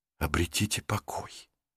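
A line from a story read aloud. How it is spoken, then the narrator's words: Whisper. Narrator (Russian): прошептал Рик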